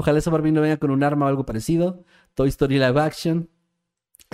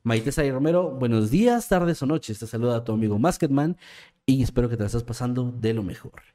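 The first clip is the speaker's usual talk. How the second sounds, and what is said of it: Announcer-style narrator voice. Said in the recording (Spanish): “voz de narrador”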